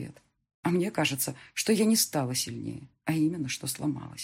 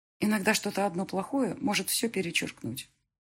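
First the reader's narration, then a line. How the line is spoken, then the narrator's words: Plain. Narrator (Russian): ответила я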